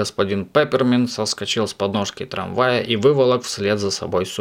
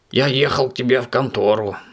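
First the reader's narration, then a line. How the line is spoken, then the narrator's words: Guilty mumble. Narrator (Russian): виноватым голосом пробормотал Субастик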